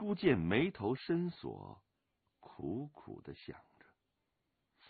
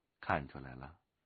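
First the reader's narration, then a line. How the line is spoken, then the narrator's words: Flat, indifferent. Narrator (Chinese): 龙八淡淡的说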